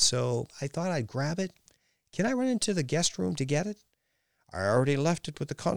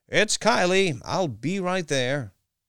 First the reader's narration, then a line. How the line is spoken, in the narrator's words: yelled